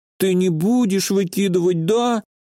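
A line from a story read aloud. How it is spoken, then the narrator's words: Sad squeak. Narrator (Russian): С печалью в голосе пропищала Вафля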